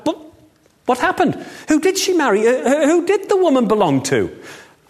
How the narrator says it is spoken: The servant who'd been listening cried

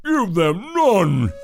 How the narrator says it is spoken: in a frightening voice

